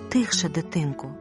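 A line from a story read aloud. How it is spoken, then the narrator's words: Dwarf woman whispering. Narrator (Ukrainian): прошепотіла карлиця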